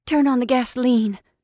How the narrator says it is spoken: she commanded breathlessly

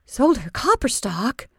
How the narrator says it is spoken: gasped

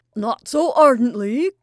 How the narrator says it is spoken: cried Shelestov, with tears of laughter

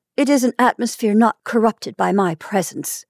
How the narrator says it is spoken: she said sharply

